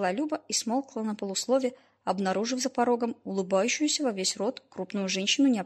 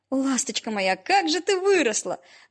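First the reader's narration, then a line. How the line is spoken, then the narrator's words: Shrieking woman. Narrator (Russian): взвизгнула незнакомка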